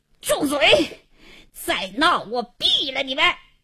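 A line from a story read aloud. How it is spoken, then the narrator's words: Furious hoarse shout. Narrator (Chinese): 王经理……气得……嘶哑着嗓子喝道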